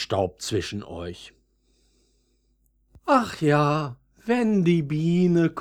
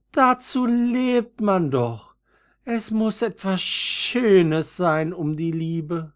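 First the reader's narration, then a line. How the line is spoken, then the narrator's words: Sighing again. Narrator (German): seufzte das zweite Veilchen wieder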